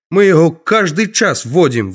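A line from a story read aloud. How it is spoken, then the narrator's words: Yelling. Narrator (Russian): вопит Анатоль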